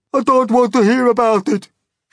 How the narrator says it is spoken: shrieked the poor blind earthworm

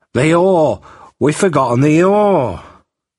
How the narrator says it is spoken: Jack suddenly started and exclaimed

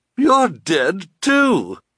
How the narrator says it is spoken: she cried

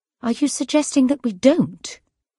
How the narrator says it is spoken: Kate said angrily

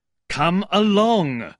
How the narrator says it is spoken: cried an angry voice in the doorway

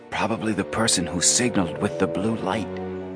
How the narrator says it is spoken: Joe whispered

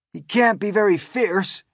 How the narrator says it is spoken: exclaimed the head of all the cops

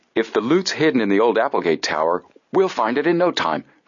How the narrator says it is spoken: Frank exclaimed

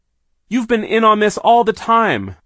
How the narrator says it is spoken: Violet shouted

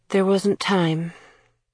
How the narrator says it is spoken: Kira sighed

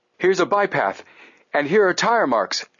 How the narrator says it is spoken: Frank exclaimed

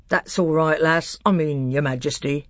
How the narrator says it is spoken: said Trumpkin with a chuckle

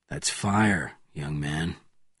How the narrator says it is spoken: answered Bourne softly

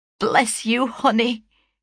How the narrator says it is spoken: cried she, affectionately

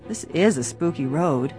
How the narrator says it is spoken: George murmured presently

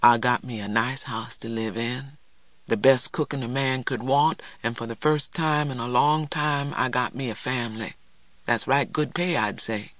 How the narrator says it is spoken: Morrison said softly

